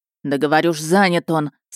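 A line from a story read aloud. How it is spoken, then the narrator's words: Barking again. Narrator (Russian): сызнова рявкнул Тамарцев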